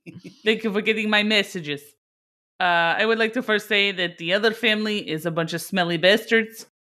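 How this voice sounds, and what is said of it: Put-on Russian accent. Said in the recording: “I don't know what accent I'm doing. ... you're in Russian, dude. ... You're Russian mafia.”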